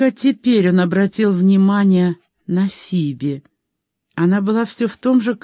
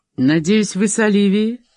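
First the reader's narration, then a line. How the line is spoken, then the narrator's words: Dry question. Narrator (Russian): сухо спросил он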